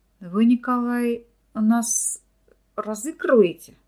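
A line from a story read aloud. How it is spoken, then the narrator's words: Mumbling, stuttering lab assistant. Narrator (Russian): промямлил, заикаясь, лаборант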